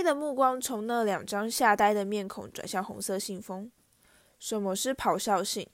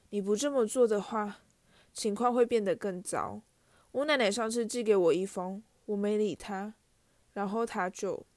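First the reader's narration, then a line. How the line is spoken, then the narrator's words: Sighing. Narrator (Chinese): 他叹了一口气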